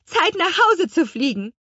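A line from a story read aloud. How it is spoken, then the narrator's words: Calling out. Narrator (German): rief die Apfelhexe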